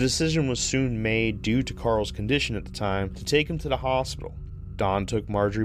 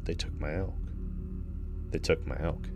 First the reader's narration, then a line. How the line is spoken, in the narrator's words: Carl continued whispering